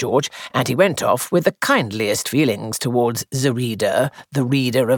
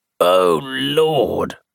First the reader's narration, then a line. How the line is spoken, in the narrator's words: groaned George